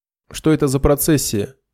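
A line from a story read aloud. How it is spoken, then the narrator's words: Stern ringing commanding voice. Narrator (Russian): спросила она грозно, звонким металлическим командным голосом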